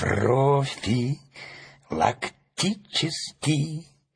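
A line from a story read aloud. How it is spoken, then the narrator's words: Slow, syllable by syllable. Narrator (Russian): медленно произнес по складам Страшила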